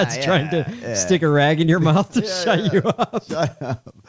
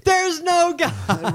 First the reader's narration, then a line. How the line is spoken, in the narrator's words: It was when you were attacked by the jellyfish and you're standing there screaming